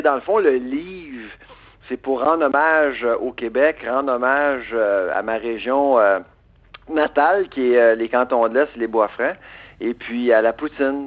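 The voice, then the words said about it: Québécois French accent. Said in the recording (French): “les gens remarquent mon accent, alors ils, remarquent que je suis québécois”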